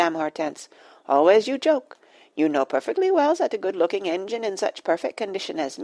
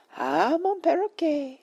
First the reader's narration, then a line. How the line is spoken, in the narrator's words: sighed Madame Hortense